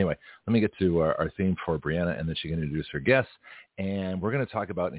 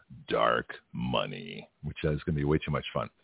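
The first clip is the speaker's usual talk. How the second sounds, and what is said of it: Exaggerated radio announcer voice. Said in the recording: “here's my, my radio voice”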